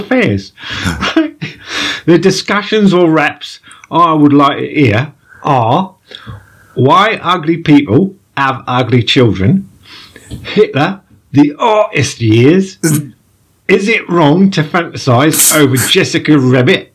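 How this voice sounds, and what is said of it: Poorly done put-on Cockney accent. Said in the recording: “I'm sounding like the guy from Mary Poppins ... you just really murdering that Cockney accent”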